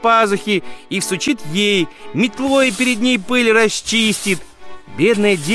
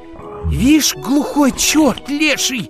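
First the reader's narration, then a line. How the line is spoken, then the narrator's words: Group muttering under breath. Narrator (Russian): пробормотали все в полголоса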